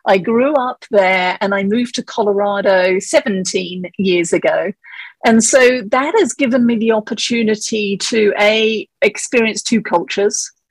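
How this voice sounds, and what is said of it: English accent. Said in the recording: “your accent ... the accent is actually from England”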